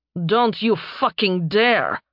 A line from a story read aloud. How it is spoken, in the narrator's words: she growled